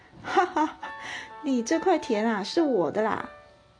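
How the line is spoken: Hearty laughing. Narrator (Chinese): 布商哈哈大笑说

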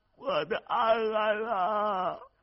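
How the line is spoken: Hoarse crying wail. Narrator (Chinese): 他声音沙哑的哭喊着

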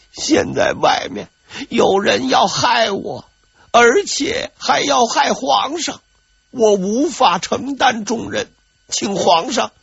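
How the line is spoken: Grief-stricken crying. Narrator (Chinese): 魏忠贤表现得相当悲痛 一边哭一边说

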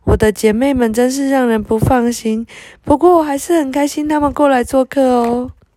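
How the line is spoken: Embarrassed smiling. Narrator (Chinese): 佩特娜不好意思的对雷亚笑了笑

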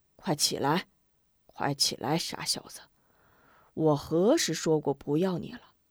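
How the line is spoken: Laughing. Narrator (Chinese): 戴阿红笑着

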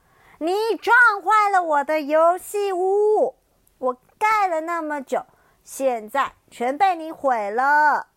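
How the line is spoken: Loud yelling. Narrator (Chinese): 哥哥东尼大叫

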